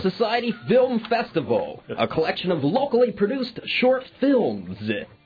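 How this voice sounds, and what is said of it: Deep nasal radio announcer voice. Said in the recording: “in my deep nasal voice. ... You're doing your are you doing your radio voice? Do the radio voice.”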